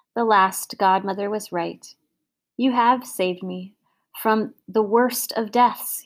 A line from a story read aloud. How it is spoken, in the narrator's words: he said